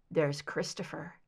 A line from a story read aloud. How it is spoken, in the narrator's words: he murmured